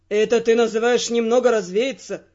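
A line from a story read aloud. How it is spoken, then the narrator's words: Resigned grumble. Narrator (Russian): проворчал виконт, но по его тону было понятно, что он уже сдался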